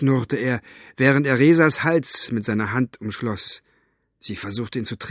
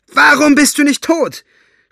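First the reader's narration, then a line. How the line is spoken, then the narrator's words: Shouting at him. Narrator (German): schrie Eleanor ihn an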